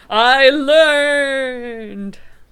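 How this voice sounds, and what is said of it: Wavery voice. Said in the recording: “the wavery voice”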